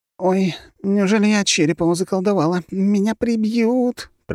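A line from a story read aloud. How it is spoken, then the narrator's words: Moaning girl. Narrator (Russian): простонала девушка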